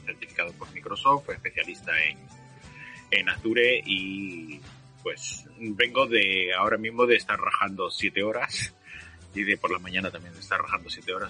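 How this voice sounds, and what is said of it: Hoarse, thick deep voice. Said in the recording (Spanish): “si me escucháis con la voz un poquito gorda, es básicamente porque me estoy quedando ronco ... pensé que era tu voz de locutor esa ... bastante sorprendido por el tono”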